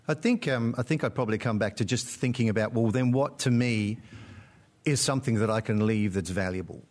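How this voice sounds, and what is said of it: Australian accent. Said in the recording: “you sound Australian ... Originally British ... lived in Australia for about 30 years ... That's where you picked up that accent.”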